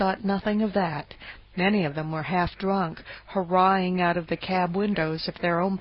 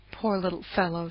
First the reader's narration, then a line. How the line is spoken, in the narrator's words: she said